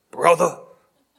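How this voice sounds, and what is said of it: Hulk Hogan impression, deep growly shout. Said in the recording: “a Hulk Hogan impression ... I can't get deep enough or growly enough”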